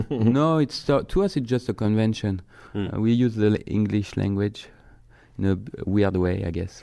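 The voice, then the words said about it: French accent. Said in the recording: “you can talk in that French accent all day”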